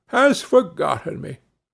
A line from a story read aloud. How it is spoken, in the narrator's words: sighed poor Rip